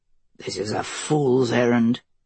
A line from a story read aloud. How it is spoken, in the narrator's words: Mace grumbled